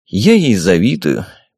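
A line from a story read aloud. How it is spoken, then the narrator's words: Sad, smiling king. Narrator (Russian): печально сказал король с улыбкой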